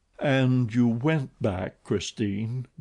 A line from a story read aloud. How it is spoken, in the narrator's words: groaned Raoul